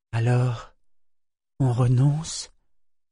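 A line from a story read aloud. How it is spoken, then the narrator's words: Sad question. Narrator (French): demanda Ambre tristement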